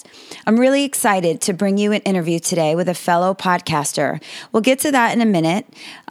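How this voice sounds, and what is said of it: Sick-sounding voice. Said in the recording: “I'm a little under the weather again, you might tell from my voice”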